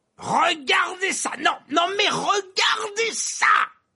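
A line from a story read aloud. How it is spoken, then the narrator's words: Yelling. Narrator (French): hurlait Verpé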